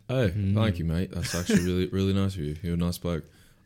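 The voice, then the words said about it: British accent. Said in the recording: “with his British accent”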